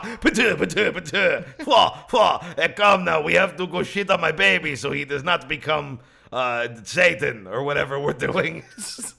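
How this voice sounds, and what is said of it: Poor put-on Greek accent. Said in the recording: “I don't know how to do a Greek accent... somewhere between Saudi Arabian and the cab from Roger Rabbit”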